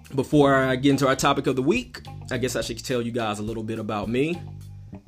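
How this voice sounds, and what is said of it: Southern American drawl. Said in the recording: “I'm from somewhere in the South, if you can hear that southern drawl in my voice”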